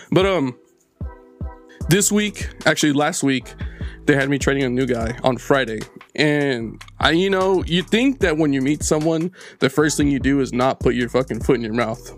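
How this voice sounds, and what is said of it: Hoarse, strained, fading voice. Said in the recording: “I'm kind of losing my voice.”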